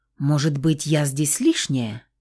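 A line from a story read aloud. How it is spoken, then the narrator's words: Plain. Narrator (Russian): спросила девушка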